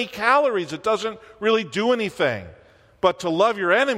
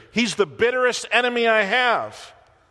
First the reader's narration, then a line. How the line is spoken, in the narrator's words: exclaimed the old preacher